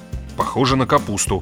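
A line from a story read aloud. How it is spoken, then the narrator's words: Mumbling while chewing. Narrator (Russian): пробормотал жующий Грегор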